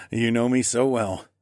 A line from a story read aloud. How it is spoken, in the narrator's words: I chuckled